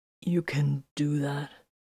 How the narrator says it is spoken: he asked hoarsely

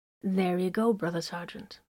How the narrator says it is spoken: said in a soothing voice

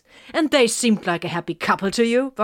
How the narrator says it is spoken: Vox snapped

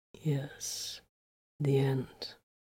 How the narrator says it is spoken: he murmured then

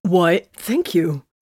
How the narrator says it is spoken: he gasped defensively

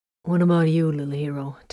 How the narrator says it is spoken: growl

